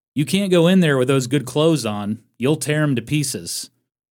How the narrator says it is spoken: A spectator called out to Homer

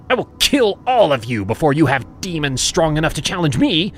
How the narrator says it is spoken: she barked

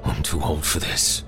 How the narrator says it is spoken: Grizz wheezed

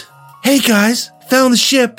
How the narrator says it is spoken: I squeaked out

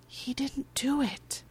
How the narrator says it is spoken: Allie says under her breath

